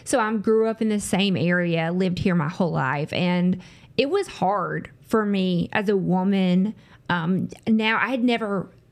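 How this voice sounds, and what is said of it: Southern American accent. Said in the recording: “I'm from the South, if you can't hear tell by my voice.”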